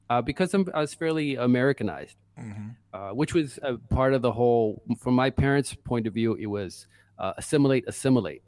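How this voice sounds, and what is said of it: New York accent. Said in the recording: “I was born and raised in Brooklyn. So that's why I have this accent. ... I'm a New Yorker.”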